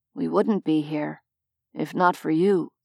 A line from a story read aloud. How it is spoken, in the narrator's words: Favian said quietly